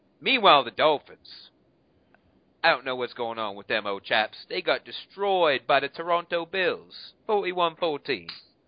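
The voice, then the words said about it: Bad put-on British accent. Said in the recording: “with a British accent ... how bad that accent was ... that sounded very, very, very British to me”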